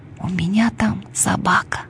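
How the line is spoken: Whisper. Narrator (Russian): прошептала Алешка

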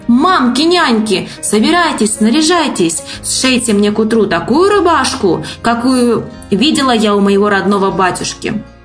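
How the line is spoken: Shout. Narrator (Russian): Василиса Премудрая крикнула

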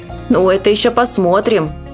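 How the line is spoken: Grumbling nanny. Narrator (Russian): ворчала няня

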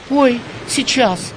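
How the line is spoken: Frightened. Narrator (Russian): испуганно отозвалась Манька

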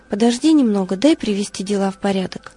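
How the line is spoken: Calm. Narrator (Russian): Лаврентий спокойно отвечал

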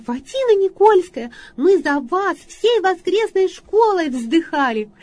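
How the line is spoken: Lively child's voice. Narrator (Russian): девочка, так лет 9, таким, знаете, таким задорным голосом сказала

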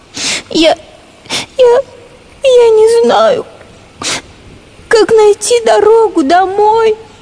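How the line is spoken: Tearful. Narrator (Russian): Сквозь слезы объяснила наша коровка

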